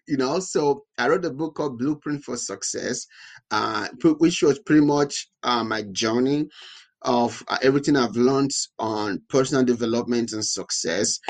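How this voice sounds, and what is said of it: Speaks with a noticeable accent. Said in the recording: “If you can hear my accent ... you can hear my accent”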